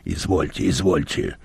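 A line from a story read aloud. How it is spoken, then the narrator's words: Grumbling. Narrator (Russian): бурчал Мозес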